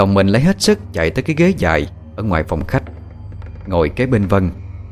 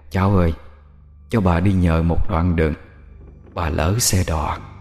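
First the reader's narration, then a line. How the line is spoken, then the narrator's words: Whispered. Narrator (Vietnamese): tiếng thì thầm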